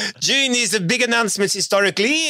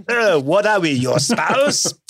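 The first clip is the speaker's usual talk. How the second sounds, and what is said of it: Put-on foreign accent. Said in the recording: “you have to do that accent for the rest of the podcast”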